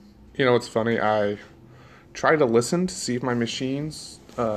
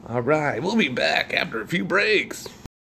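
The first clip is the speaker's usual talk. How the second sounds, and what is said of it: Cheesy radio DJ voice. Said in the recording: “my cheesy DJ voice.”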